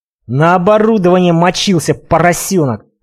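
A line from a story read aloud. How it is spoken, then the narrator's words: Hissed. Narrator (Russian): прошипел Костя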